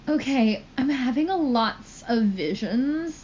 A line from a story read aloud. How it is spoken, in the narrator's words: I said in a worried voice